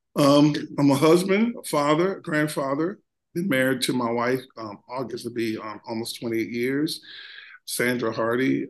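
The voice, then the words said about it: Voice worn from being unwell. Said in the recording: “excuse my voice. I've been fighting weather or something here lately.”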